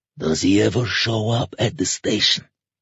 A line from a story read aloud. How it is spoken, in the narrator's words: the fat man asked in a whisper